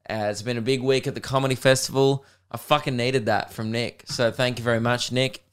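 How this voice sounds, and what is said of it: Hoarse, tired voice. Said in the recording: “As you can hear, maybe, I've lost my voice.”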